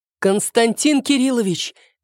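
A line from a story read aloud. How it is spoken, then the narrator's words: Disgusted shouting. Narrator (Russian): кричала Морозова, глядя на Кривошейна с таким отвращением, словно увидела ядовитую змею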